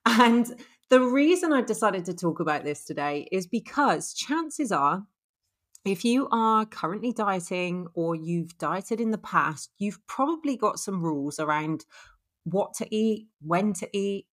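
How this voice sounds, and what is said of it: Bristolian English accent. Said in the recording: “really hard to say with a Bristolian accent”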